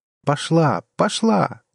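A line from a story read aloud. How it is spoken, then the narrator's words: Triumphant exclamation. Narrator (Russian): торжествующе воскликнула Джанет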